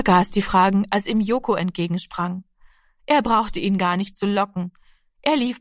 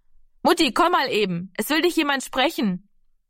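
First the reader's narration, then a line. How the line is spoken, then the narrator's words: Calling from a distance. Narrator (German): rief Heidemarie von der Hoftür aus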